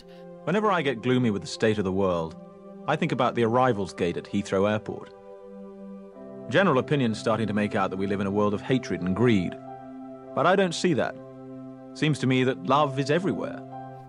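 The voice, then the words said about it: Put-on British accent. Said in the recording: “Excuse my terrible Hugh Grant. ... Shitty impersonation. ... that was a great Emma Thompson accent. ... That was actually a really good British, at least by my standards. It was a great British accent.”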